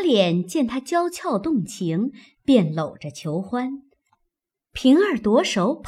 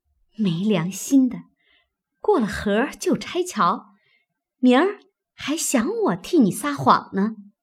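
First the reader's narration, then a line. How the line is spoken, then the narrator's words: Through gritted teeth. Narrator (Chinese): 平儿咬牙道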